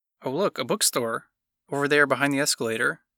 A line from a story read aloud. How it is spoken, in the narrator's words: Ethel pointed eagerly